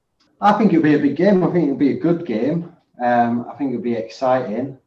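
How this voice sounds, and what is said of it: Non-Scottish British accent. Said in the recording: “as people can probably hear, by your accent, you're not Scottish”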